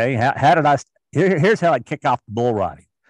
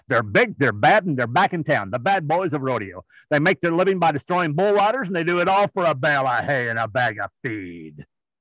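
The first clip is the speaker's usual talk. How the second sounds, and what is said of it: Rodeo announcer voice. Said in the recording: “your like best bull rider announcer voice”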